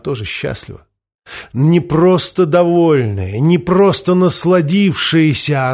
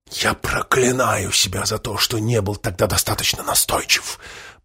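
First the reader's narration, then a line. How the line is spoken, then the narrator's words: Whisper. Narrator (Russian): прошептал Помпилио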